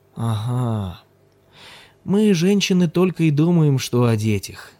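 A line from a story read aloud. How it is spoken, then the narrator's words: Sleepy. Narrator (Russian): сонно проговорил Ким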